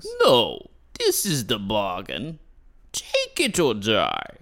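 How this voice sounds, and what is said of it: Slight accent, dominating voice. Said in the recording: “you've got a little accent. ... very dominating.”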